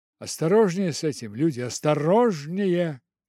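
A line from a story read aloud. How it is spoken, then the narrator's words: Shouting. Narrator (Russian): крикнул он матросам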